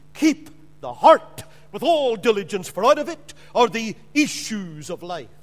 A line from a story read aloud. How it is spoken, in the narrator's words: Solomon exclaimed